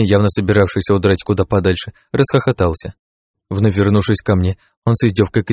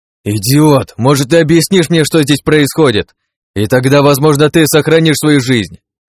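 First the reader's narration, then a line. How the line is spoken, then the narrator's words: Frantic yelling. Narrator (Russian): Агни вновь заорав как полуумный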